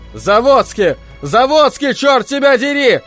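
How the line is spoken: Shouting. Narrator (Russian): орал он

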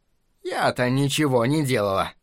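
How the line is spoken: Sigh. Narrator (Russian): вздохнула миссис Хиглер

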